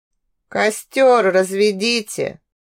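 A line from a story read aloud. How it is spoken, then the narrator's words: Creaky voice. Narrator (Russian): проскрипел Шасиир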